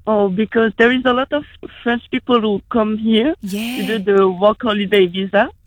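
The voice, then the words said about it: Heavy French accent. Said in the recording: “quite a heavy accent”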